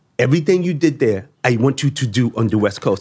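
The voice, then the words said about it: Impression of Lyor Cohen's voice. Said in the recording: “Are you impersonating his voice? ... That's Lear.”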